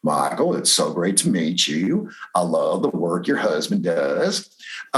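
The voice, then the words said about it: Imitates another person's voice. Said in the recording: “I'm doing my impression of Michael's impression of Al Gore”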